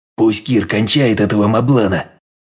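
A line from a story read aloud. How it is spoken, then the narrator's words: Hissed. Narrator (Russian): прошипел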